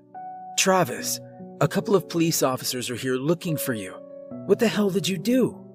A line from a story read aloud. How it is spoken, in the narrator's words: she asked in a confused and scared tone at the same time